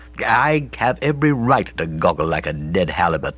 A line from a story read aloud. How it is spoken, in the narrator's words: said coldly